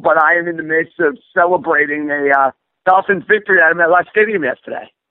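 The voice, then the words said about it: Hoarse, rugged voice. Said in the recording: “my voice sounds a little hoarse or sounds a little more rugged than usual”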